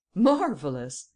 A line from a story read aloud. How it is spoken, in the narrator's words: exclaimed Ganimard